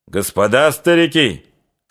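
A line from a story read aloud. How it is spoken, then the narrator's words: Shouted. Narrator (Russian): крикнул сотник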